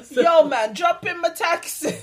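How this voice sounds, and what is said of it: Bad imitated Jamaican accent. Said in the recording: “he had the worst Jamaican accent ... he was definitely a white guy”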